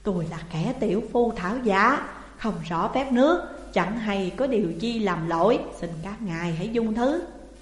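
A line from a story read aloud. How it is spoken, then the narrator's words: Fearful, whimpering plea. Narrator (Vietnamese): Vương xã trưởng thấy quân lính đến ồ ạt, liền ... rên rỉ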